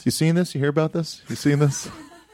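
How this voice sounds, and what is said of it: Jay Leno impersonating Jonah Ray. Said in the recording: “Here's Jay Leno doing his impression of Jonah Ray.”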